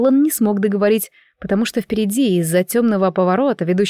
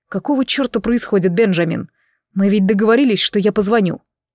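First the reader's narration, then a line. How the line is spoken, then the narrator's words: Stern man. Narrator (Russian): мужчина тем же суровым тоном проговорил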